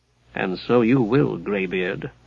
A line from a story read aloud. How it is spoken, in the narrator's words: muttered Sinistrad beneath his breath